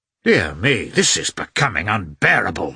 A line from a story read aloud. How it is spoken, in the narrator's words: exclaimed Vronsky